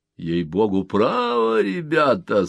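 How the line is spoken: Bored voice. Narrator (Russian): сказал босс скучным голосом

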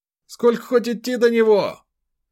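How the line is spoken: Shouted. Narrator (Russian): прокричал Ефим Прохорович

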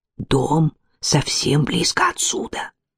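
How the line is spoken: Whispering. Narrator (Russian): прошептал Титус

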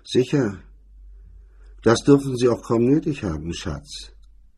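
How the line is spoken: Dry remark. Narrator (German): sagte er trocken

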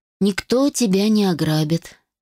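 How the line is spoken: Calm, confident voice. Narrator (Russian): голос Александра прозвучал спокойно и уверенно

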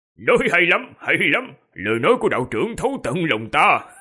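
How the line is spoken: Loud laughing. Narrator (Vietnamese): Quỷ Vương đột nhiên cất tiếng cười lớn rồi nói

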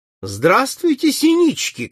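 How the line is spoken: Shout. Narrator (Russian): крикнул им Залзикевич

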